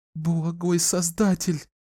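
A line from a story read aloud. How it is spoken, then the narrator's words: Sobbing plea. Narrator (Russian): всхлипывая, взмолилась Клариса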